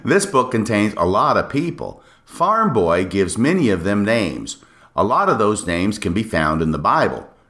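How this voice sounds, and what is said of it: Put-on old upstate New York accent. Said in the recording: “That's me trying to be an old crusty upstate New Yorker in the early 19th century. ... I'm going to try and do an accent.”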